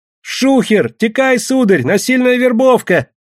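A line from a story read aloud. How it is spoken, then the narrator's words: Child's yell. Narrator (Russian): мальчонка и завопил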